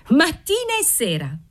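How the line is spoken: Shrieking. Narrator (Italian): strillò Antonetta

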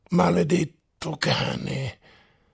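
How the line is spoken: Through clenched teeth. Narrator (Italian): sferragliò Oblomov tra i denti

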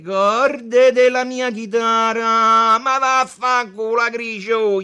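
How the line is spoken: Group shouting. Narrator (Italian): gli gridarono quelli che erano al tavolino con lui

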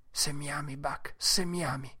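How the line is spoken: Whispered. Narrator (Italian): gli bisbigliò

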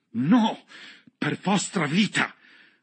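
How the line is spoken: Exclaimed. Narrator (Italian): ha esclamato

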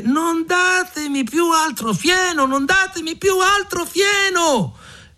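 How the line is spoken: Anguished shouting at full voice. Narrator (Italian): preso dall'angoscia, si mise a gridare con la voce più alta possibile

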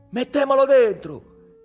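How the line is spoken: Shouted. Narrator (Italian): Lello gridò

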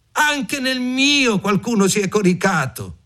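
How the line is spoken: Shouting. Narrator (Italian): gridarono

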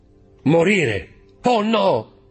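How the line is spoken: Shouted. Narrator (Italian): gridò

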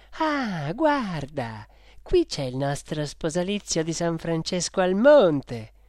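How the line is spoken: Exclaimed. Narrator (Italian): Virginia ha esclamato

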